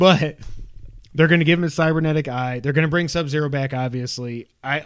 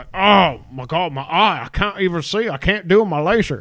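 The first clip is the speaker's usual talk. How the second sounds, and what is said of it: Put-on, unidentifiable accent. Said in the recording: “I don't know what that accent was”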